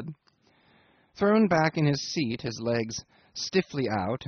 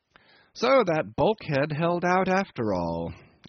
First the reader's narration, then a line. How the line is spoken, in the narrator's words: I remarked cheerfully